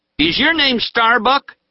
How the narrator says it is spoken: he asked loudly

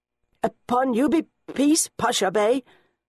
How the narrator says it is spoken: the headman stutters, his round face reddening further

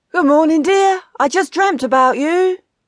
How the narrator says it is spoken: shouted

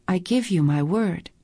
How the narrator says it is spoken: breathed

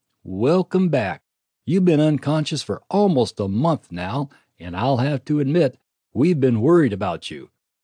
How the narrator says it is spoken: she said happily

